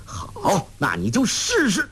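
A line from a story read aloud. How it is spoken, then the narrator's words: Angry. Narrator (Chinese): 黄药师怒道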